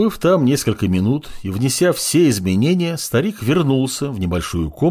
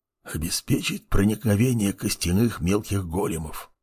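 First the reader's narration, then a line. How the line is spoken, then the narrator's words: Old man's whisper. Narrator (Russian): прошептал в ответ старичок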